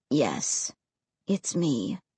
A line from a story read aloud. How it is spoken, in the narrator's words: he said softly